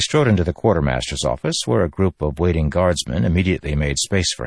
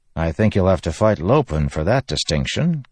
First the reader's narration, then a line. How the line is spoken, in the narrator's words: Kaladin said with a chuckle